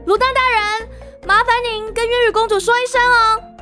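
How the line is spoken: Playful shout. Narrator (Chinese): 渊羽调皮一笑，对门外高喊

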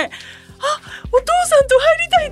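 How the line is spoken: Crying. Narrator (Japanese): ってなっちゃってもうそこで泣いて

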